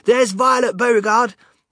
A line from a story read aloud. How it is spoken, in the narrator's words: someone shouting